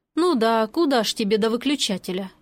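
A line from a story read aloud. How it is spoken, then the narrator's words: Sighing. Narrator (Russian): Я вздохнула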